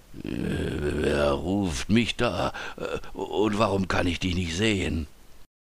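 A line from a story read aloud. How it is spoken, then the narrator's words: Hoarse question. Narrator (German): fragte er mit heiserer Stimme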